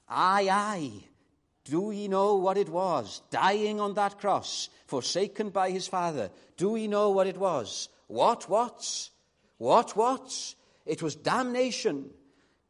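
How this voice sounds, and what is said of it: Put-on Scottish accent. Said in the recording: “going to do an impression of a Scottish accent.”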